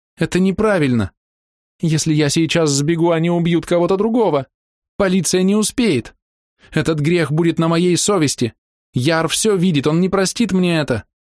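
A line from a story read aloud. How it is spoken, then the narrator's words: Intensifying sobbing. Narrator (Russian): Она снова принялась рыдать с еще большей силой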